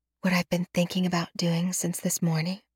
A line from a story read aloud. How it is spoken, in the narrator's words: I whisper